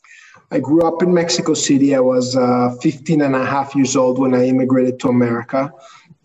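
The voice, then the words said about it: Slight Jewish-Mexican accent. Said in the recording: “a little twang there, that's a Jewish-Mexican accent.”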